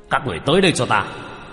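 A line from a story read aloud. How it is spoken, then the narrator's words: Commanding shout. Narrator (Vietnamese): thủ lĩnh âm binh quát lên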